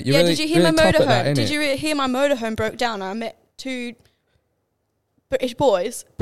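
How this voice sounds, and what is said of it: Put-on UK accent. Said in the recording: “Can you do a good UK accent ... I'm pretty good at the UK accents these days ... That's quite good.”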